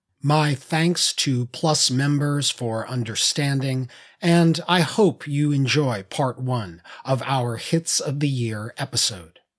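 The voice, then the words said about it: Slightly raw voice. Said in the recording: “I've been fighting off the bug that's going around this holiday season. ... my voice is a little raw”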